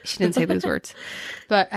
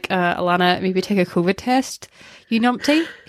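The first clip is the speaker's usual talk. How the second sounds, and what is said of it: Poor attempt at Scottish accent. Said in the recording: “I can't do a Scottish accent either. You numpty? I can't do a Scottish accent at all.”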